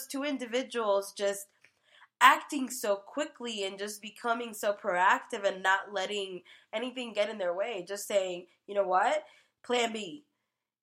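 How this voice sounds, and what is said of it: Slightly nasal, congested voice. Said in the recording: “you can probably hear it in my voice. I'm a little nasally.”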